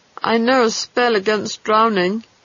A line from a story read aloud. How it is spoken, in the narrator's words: he added miserably